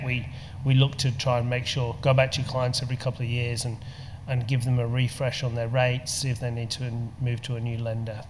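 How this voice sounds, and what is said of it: English accent. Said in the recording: “we can tell by your accent... You're a POM... English”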